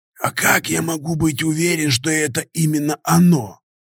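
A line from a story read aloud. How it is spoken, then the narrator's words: Wheezy nomad's voice. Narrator (Russian): просипел кочевник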